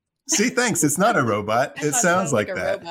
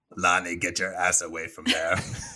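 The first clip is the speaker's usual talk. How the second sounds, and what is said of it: Impression of a movie character. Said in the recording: “That was a really good impression.”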